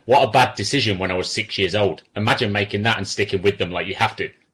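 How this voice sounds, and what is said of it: English accent from Coventry. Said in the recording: “you've got an accent ... I'm from Coventry”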